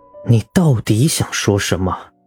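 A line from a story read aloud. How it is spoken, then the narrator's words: Bewildered, through gritted teeth. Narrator (Chinese): 唐胜被骂得一阵莫名其妙，咬牙切齿地问道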